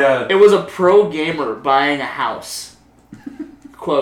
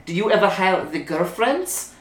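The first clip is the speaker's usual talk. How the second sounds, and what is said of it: Mimics a woman's heavy, poor accent. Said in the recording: “she's got like a really shitty accent.”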